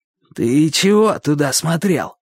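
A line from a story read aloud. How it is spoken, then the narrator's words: Less hoarse question. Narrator (Russian): спросил не так уж хрипло, как раньше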